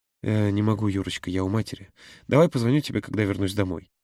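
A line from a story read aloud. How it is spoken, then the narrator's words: Tender. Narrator (Russian): нежно произнес он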